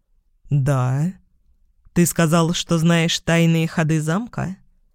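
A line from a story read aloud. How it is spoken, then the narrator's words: Slow speech, cat. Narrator (Russian): Кот медленно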